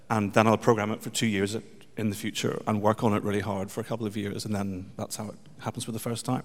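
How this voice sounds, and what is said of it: British accent, speaking quickly. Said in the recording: “You can slow down just a tiny bit... Your British accent and the microphone.”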